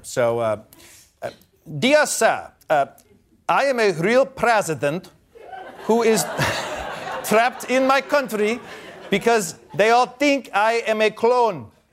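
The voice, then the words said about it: Put-on Nigerian accent. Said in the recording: “I'm supposed to do a Nigerian accent here ... That's pretty good.”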